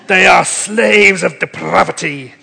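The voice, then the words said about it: Scottish accent. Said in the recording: “I feel I should read it in a Scottish accent.”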